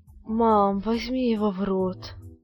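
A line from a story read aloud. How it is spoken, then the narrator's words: Moan. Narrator (Russian): простонал Юра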